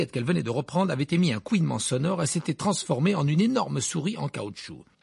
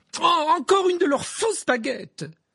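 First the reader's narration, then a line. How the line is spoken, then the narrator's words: Exclaimed. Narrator (French): s'écria-t-elle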